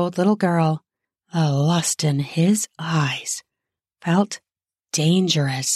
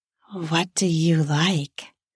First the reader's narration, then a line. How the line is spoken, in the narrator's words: asked in a seductive voice